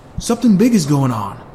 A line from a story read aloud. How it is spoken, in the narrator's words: yelled Drew